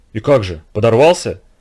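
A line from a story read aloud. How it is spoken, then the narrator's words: Breathless whisper in unison. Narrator (Russian): Замирая, в один голос прошептали мы с Вовкой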